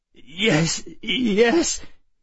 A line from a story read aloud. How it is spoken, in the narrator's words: he agreed, his voice shaking